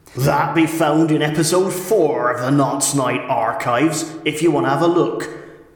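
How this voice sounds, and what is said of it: Speaks in a put-on accent. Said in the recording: “I've no idea why I've got this accent.”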